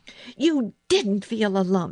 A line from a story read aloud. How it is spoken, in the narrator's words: said fiercely